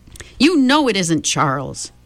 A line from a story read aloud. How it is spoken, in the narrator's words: Meg shouted